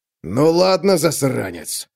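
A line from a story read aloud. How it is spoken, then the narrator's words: Growled. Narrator (Russian): прорычал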